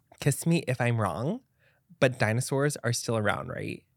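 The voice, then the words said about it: Valley Girl voice. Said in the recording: “in my best Kim K voice or my best like Valley Girl voice.”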